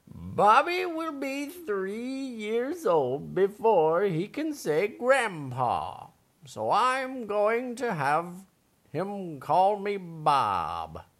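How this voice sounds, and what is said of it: Old grandpa character voice. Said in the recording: “Is that your grandpa voice tonight?”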